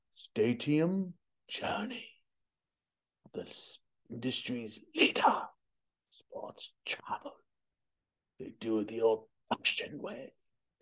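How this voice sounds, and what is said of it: Imitates another person's voice. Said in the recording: “my John Houseman voice”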